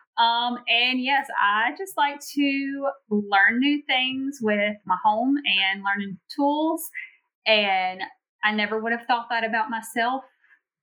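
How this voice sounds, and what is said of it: Louisiana Southern accent. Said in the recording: “I am from a very small town in Louisiana. If you haven't caught on to the accent, I've gotten a lot of comments recently about my accent.”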